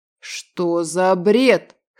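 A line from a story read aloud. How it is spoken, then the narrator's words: Scoffing snort. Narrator (Russian): хмыкнул Дим, а потом уже громче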